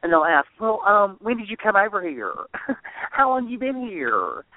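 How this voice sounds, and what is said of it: Put-on American country accent. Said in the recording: “I can do American accents, too. I think very well. Country ones”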